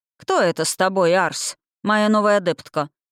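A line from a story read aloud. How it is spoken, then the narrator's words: Dry. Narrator (Russian): сухо произнес куратор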